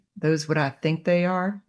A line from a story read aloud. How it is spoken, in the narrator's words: he asked